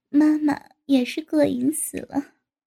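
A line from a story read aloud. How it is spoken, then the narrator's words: Sighing. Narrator (Chinese): 高志新叹了口气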